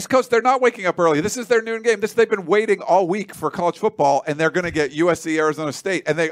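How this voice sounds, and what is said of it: Usual voice. Nothing is said of it.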